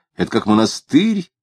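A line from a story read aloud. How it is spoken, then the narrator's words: Lying. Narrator (Russian): лгал он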